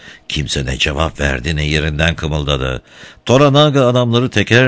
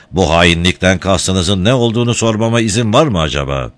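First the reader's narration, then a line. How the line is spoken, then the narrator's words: Shouted. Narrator (Turkish): Toranaga bağırdı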